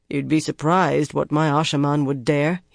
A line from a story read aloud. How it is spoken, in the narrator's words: he said dryly